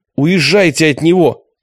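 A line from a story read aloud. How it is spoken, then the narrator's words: Shouting. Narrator (Russian): кричал Прокопий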